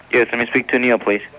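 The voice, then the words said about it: Happy, cheerful tone. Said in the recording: “why do you sound so happy?”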